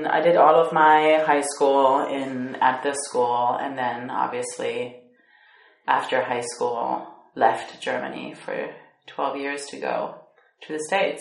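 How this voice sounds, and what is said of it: American English accent. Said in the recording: “this American accent... I had the American accent”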